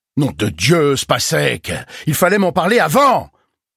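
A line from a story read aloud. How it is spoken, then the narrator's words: Shouting, banging the table. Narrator (French): cria en tapant sur la table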